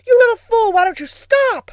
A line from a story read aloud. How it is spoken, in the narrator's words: screamed Billy